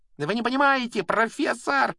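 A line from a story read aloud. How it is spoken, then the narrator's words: Shrieking. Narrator (Russian): визжал Малфой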